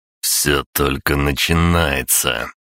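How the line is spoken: Growl. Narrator (Russian): прорычал я

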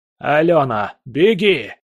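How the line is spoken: Shouting. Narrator (Russian): крикнул Аркадий Иосифович

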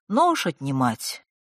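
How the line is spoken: Willing, calm explanation. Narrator (Russian): охотно и спокойно объяснил тот

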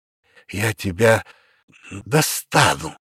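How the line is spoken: Hoarse rasp. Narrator (Russian): прохрипел я

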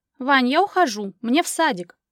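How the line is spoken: Shout, abruptly breaking off. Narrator (Russian): прокричала и осеклась

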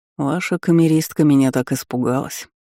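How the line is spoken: King's smirking snort. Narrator (Russian): хмыкнул король

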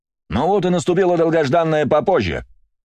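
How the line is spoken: Joyful exclamation. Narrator (Russian): радостно выкрикнул я

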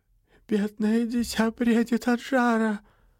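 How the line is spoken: Pitying moan. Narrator (Russian): простонала она жалостливо

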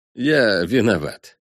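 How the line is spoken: Trembling voice, young fox. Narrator (Russian): дрожащим голосом сообщил вернувшийся вместе с небом лисенок

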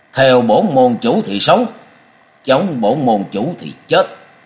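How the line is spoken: Harsh menacing voice. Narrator (Vietnamese): Diệp Kiên gằn giọng nói

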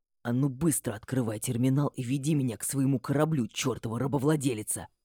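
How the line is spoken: Hissed into ear. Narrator (Russian): Прошипел в мое ухо

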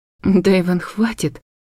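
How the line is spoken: Broken halting whisper. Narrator (Russian): Голос предательски сбился на прерывистый шепот

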